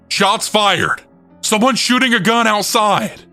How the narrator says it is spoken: a massive group of people yelling

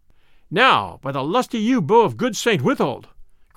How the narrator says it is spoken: cried the stranger

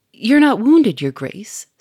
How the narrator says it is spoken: said Sonia anxiously

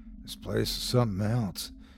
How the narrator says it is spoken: said in a quiet voice

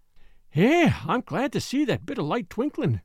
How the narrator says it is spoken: she exclaimed

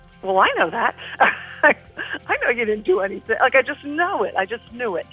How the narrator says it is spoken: I half chuckled to myself

